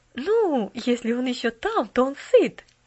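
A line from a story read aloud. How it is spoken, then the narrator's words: Cheerful interruption. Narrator (Russian): весело прервала миссис Керрю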